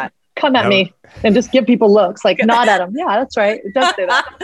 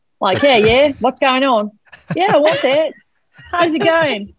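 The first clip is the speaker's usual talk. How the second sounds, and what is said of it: Put-on Australian accent. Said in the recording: “I'm just going to start talking in an Aussie accent”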